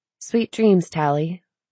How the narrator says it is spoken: said the room

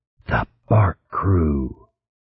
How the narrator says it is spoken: The creature behind the mask chuckled harshly

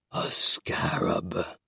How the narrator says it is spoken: rasped, barely intelligible

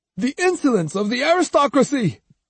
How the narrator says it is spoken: exclaimed Shoyu

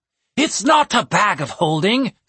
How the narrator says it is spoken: snapped Murkwart

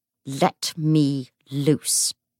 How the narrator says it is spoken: he snarled

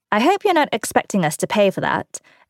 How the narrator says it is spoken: Aaron said dryly

